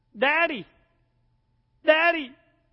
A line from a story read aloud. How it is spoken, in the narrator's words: she called out to her dad